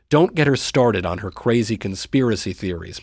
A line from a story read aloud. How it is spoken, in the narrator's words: my brother said